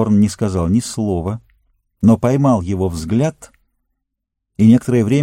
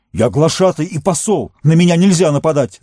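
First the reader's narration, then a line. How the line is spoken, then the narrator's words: Shout. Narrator (Russian): закричал он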